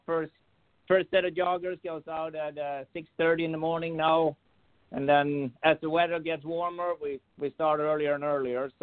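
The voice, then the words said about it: Slight foreign accent. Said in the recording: “you've got a little bit of an accent as far as, the typical American speak”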